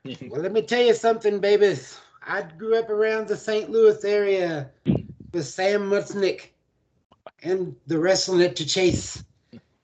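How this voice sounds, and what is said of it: Imitates another person's voice. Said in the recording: “Dusty Rhodes best impersonation”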